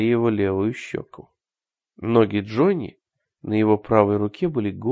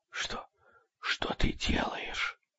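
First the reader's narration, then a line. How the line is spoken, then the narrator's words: Whispering. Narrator (Russian): прошептала она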